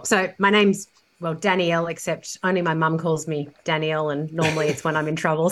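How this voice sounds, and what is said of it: Australian accent. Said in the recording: “You can hear probably from my accent that I'm from a different part of the world. I'm in Australia. I'm a Sydney girl, born and bred.”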